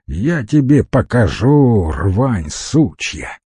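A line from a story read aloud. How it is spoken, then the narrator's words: Lazy mild through teeth. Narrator (Russian): Лениво и без особой злости процедил шеф-повар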